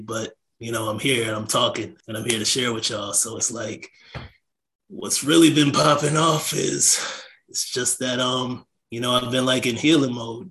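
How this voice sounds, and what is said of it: Raspy voice. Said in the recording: “I can even hear it in my voice. My voice is still raspy,”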